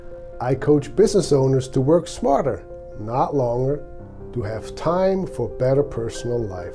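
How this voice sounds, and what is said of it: Swiss accent. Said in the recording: “my accent, I came from Switzerland more than 30 years ago”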